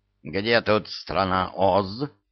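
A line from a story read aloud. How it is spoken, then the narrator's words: Growling. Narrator (Russian): прорычала она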